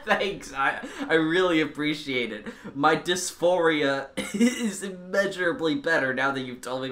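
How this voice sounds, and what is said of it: Sick voice, sounds cartoonishly Goofy-like. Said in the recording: “is extremely ill and sounds like Goofy for some reason”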